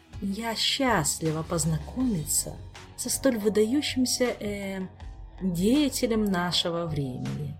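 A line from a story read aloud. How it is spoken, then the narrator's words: Languid purring voice. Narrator (Russian): томным урчащим голосом произнесла Камилла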